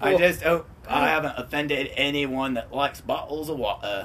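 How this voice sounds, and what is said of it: Put-on New Zealand accent. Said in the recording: “I've done actually several accents. Very genuine accent. ... my New Zealander impression. It's flawless.”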